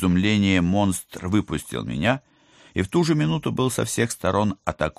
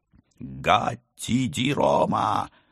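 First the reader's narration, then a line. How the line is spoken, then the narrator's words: Roaring crowd. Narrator (Russian): взревели другие коты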